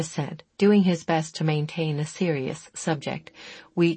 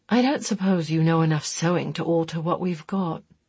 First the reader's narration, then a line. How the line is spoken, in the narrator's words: Chris asked wistfully